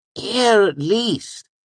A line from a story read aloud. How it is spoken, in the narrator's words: he pleaded